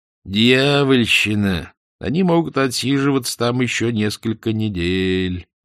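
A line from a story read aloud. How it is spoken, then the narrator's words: Gloomy. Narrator (Russian): мрачно заметил незнакомец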